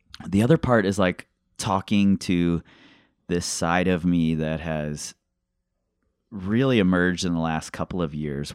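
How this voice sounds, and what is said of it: Hoarse, strained voice. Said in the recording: “I'm losing my voice here. Too many of these conversations.”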